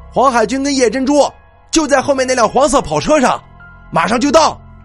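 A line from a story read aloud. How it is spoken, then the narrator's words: Loud calling. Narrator (Chinese): 我大声叫道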